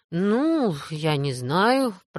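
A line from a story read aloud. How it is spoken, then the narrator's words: Mumbled. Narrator (Russian): пробормотал Мэтью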